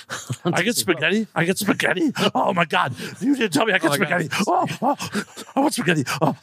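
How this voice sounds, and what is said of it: Imitation of an excited dog. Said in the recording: “your like imitation. Like ... of an excited dog. ... Excited dog going for spaghetti. ... Best dog impersonation”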